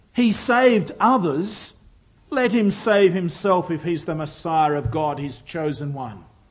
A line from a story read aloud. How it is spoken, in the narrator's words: scoffed, said